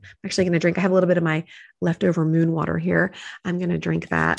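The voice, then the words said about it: Slightly phlegmy voice. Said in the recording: “I can still feel a little something in it, a little phlegmy.”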